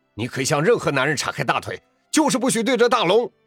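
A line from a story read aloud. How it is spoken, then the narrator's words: Furious roar. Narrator (Chinese): 发哥怒不可遏 大声吼道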